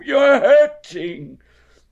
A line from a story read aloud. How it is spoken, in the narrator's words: cried Winnie the Pooh